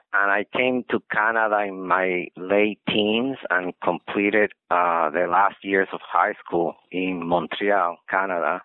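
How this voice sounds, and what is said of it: Spanish-speaker's accent in English. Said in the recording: “as you can see from the accent, my mother tongue is Spanish. I was born in Puerto Rico”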